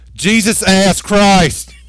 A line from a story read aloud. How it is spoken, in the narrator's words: this lady screams at the top of her lungs